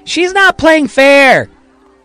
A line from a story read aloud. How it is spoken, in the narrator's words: yells